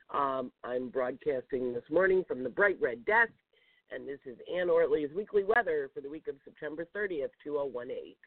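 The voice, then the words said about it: Creaky, slightly congested voice. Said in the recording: “I have a little bit of a cold, so and thus sound creaky this morning”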